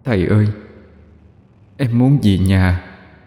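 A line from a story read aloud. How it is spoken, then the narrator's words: Trembling faint voice. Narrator (Vietnamese): Một giọng run run cất lên, nhẹ như gió thoảng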